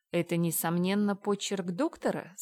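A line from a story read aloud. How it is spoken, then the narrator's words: Plain. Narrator (Russian): спросил адвокат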